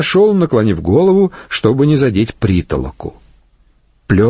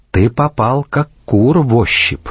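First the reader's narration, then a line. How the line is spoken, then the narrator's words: Quiet whisper. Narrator (Russian): тихо шепнула она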